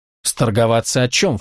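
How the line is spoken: Snorted. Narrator (Russian): фыркнула Дебора

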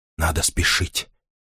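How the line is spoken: Whisper. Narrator (Russian): прошептал он

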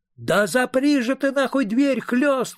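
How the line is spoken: Yelling. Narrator (Russian): заорал Клинт

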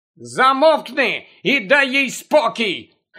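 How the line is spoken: Shout. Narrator (Ukrainian): крикнув Пікс

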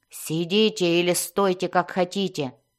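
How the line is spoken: Mentor growling. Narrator (Russian): зарычал один из наставников

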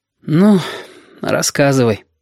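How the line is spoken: Sighing. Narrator (Russian): вздохнул ёжики

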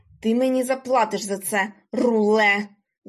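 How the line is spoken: Shrieking. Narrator (Ukrainian): заверещав той

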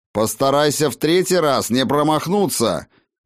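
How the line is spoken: Bewildered shout after someone. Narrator (Russian): крикнул ему вдогонку Тан, сам не понимавший, что происходит

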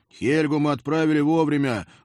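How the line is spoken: Loud announcement. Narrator (Russian): громко сообщил я

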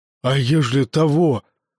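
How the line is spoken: Timid question. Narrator (Russian): робко спросил Тритон

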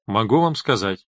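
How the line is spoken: Calm. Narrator (Russian): спокойно произнесла Барбара

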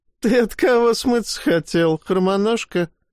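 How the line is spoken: Thin laugh. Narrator (Russian): Тоненько рассмеялся Николаев

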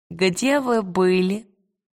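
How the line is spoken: Plain question. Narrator (Russian): спросил он

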